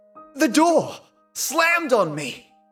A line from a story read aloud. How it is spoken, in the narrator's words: I cried